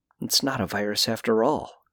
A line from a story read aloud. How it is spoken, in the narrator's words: I muttered